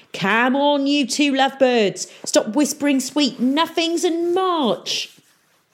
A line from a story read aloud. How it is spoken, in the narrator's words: Peavy hollered